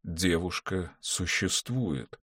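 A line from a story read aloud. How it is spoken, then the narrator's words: Slow speech. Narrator (Russian): сказал он медленно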